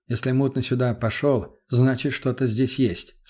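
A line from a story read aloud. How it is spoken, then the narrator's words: Calm. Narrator (Russian): спокойно ответил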